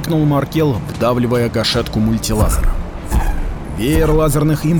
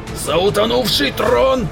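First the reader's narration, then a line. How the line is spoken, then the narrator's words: Disgusted roar. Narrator (Russian): взревел Ростик, преисполнившись отвращения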